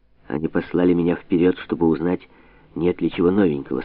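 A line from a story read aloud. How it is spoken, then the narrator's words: Plain. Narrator (Russian): сказал он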